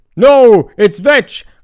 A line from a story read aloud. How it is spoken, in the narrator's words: cried Melos